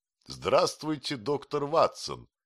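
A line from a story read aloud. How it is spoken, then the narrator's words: Very cheerful exclamation. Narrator (Russian): воскликнул он необыкновенно весело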